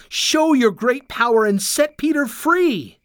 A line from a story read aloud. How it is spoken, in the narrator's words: they cried